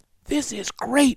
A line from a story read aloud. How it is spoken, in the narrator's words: whispered Annie